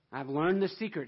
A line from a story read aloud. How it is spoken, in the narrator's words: says